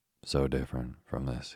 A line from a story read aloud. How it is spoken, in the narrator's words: he said